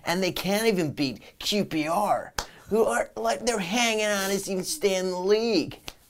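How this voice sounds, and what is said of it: Put-on American accent. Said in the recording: “What's the American accent about? ... I was just doing an American accent.”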